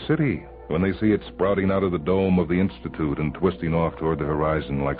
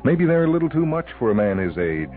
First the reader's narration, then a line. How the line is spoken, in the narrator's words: she chuckles